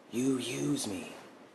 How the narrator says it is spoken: he said, almost whispering

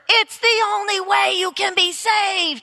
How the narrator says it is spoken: he shouted

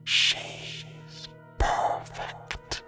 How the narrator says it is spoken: I thought I heard the thing whisper

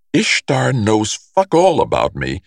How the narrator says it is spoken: Nate snaps

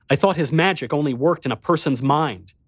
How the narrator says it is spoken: I snarled at him

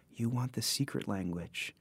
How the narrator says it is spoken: Claire murmured

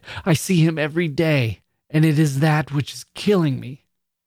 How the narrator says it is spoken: she cried

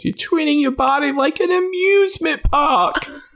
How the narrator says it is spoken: she kind of whines when she says

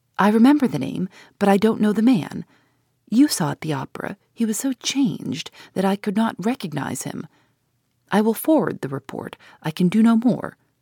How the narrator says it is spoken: Pesca's voice saying eagerly, in low tones and in his own language

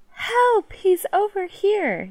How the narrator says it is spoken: scream out

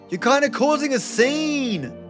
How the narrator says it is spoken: Terry yelled

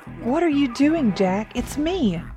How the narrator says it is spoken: cried, confusion overwhelming my thoughts

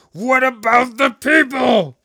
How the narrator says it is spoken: Pressing his lips tightly together, blowing his cheeks up like balloons, he blurted out

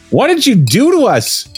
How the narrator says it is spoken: Fred asked loudly

